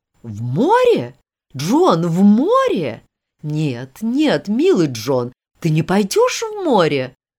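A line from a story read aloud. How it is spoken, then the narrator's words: Horrified exclamation. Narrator (Russian): воскликнула миссис Изи с ужасом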